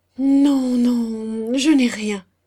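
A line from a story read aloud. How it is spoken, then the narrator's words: Stammered. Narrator (French): bégaya-t-il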